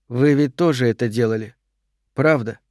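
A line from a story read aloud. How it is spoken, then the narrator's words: Soft. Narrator (Russian): мягко сказала Карен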